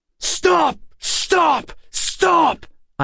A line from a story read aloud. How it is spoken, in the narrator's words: I shouted in hollow, desperate for something to get through